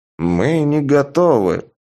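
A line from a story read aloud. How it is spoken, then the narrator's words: Toothless mumble, old woman. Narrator (Russian): прошамкала одна из старух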